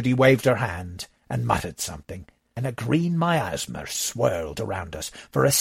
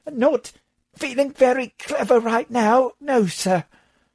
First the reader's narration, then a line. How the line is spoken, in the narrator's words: Thomas choked